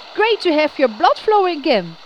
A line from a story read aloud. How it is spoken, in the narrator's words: he called out enthusiastically to the others